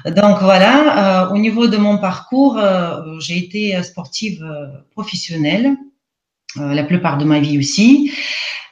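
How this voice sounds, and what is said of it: Russian accent speaking French. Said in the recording (French): “je ne suis pas française... je suis russe... d'où mon accent aujourd'hui en français... mon accent”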